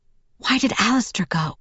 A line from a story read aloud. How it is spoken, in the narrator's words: I whispered